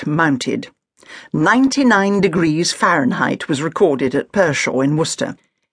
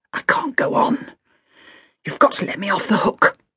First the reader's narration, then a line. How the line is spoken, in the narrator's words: heard a woman whisper urgently